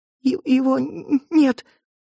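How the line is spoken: Stammering, tearful, strained. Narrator (Russian): заикаясь и размазывая сопли, выдавила Рейна

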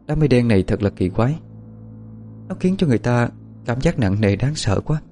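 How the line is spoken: Soft lament. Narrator (Vietnamese): Bích Nguyệt khẽ than

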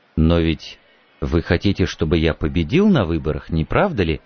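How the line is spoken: Soft question. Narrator (Russian): мягко спросил Байерли

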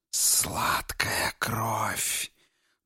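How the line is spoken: Hissed by a maiden. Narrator (Russian): прошипела дева

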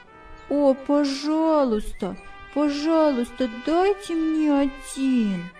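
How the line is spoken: Young woman's soft sigh. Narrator (Russian): Молодая женщина тихо вздохнула

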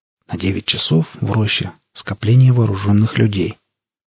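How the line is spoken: Quiet conspiratorial report. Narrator (Russian): негромким, заговорщическим голосом Алексей доложил

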